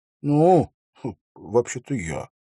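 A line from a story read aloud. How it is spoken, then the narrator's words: Mumbled. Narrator (Russian): пробормотал он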